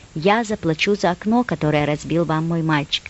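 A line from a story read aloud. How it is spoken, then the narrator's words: Polite calm. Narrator (Russian): Мама вежливо и спокойно задала соседу несколько вопросов и сказала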